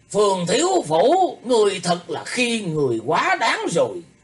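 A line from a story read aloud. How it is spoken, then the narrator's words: Angry, frightened old man shouting. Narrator (Vietnamese): trong lòng của lão ấy lại vừa giận vừa kinh sợ, buộc miệng quát lên rằng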